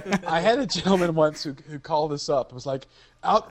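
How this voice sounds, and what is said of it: Usual voice. Nothing is said of it.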